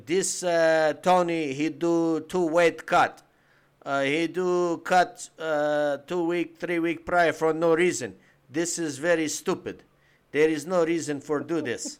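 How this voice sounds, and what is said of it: Imitation of Khabib's accented English. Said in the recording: “Khabib himself this week said ... I pretty good impression, actually.”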